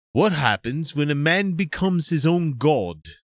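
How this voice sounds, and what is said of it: Bad put-on Australian accent. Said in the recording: “I'll try to read it with a bad Australian accent ... that's the last line I'm going to read in Australian”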